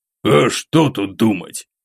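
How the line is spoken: Snorting grunt. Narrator (Russian): хмыкнул Мясников

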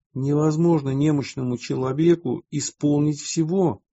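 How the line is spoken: Plain. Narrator (Russian): ответили ему братья

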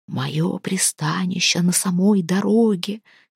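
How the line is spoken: Whisper. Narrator (Russian): шептал голос

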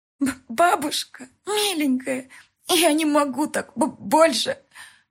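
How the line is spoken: Words through sobs. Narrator (Russian): сквозь всхлипы стали прорываться слова

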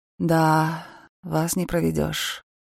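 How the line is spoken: Disappointed drawl. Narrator (Russian): с разочарованием протянула

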